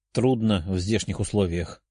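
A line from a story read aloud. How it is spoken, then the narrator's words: Quiet. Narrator (Russian): тихо ответил он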